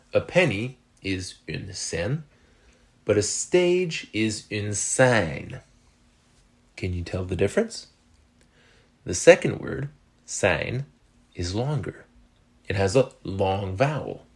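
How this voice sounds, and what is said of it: French Canadian accent. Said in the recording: “French Canadians like myself ... my French Canadian accent”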